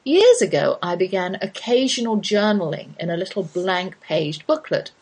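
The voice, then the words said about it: British accent. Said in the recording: “my American life with a British accent.”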